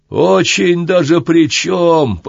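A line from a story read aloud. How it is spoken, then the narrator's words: Neighbor nearly shouting. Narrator (Russian): почти крикнул сосед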